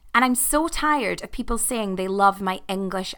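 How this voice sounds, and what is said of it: Scottish Edinburgh accent. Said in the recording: “My accent is from Edinburgh, in Scotland.”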